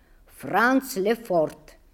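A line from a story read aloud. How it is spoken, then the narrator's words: Plain. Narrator (Russian): ответила голова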